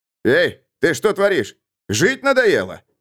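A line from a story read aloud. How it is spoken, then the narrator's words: Alarmed yell. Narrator (Russian): завопил Берг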